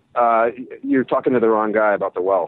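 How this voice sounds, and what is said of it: American Midwestern accent. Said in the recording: “You probably hear my accent. It's a bit more Chicago than Cardiff ... the accent didn't exactly sound Welsh”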